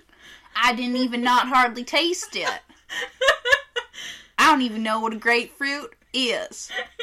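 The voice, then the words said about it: Put-on Southern accent. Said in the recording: “I'm just going to talk like this for the rest of the episode ... There's nothing wrong with Southern accent”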